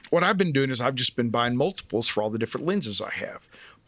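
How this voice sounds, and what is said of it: Speaks with a noticeable accent. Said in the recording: “with my accent, sometimes it can be hard to understand”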